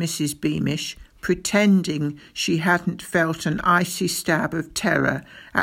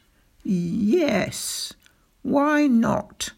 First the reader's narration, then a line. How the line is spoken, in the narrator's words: said Spittleworth slowly